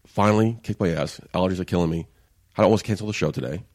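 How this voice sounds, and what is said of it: Slightly nasal, congested voice. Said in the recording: “I sound a little weird. I sound a little nasally.”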